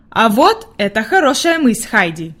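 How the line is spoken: Plain. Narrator (Russian): сказал доктор

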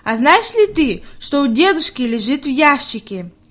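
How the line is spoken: Plain. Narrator (Russian): спросила Хайди

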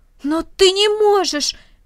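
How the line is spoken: Exclaim. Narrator (Russian): воскликнул Рома

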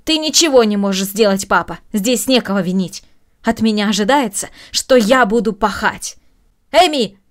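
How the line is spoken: Raised voice shout. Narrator (Russian): повысив голос, крикнула Маша

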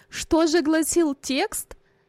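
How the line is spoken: Laughing mother. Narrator (Russian): засмеялась мать

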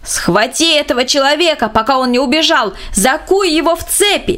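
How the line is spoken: Distant shout. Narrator (Russian): С противоположного берега реки бургомистр кричал

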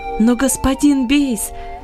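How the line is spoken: Surprised exclamation. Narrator (Russian): с удивлением воскликнул Иосиф

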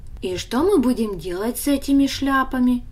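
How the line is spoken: Plain question. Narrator (Russian): спросил Даня

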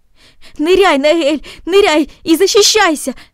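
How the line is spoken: Shouted. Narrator (Russian): закричал он

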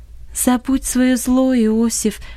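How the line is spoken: Calm but insistent. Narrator (Russian): сказала Долорес спокойно, но настойчиво

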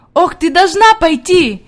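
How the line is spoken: Shouting while moving. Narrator (Russian): кричала на ходу

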